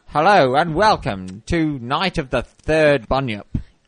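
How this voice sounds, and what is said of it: Put-on British accent. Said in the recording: “adopt a British accent”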